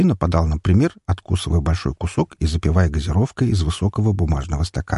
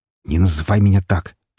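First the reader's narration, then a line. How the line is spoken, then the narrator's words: Man's hiss. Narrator (Russian): прошипел мужчина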